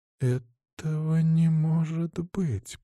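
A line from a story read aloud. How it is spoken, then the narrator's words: Whispered. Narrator (Russian): прошептала она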